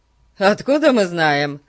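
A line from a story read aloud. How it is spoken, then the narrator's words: In unison, then laughing. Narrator (Russian): Хором сказали Пип и Ларри и засмеялись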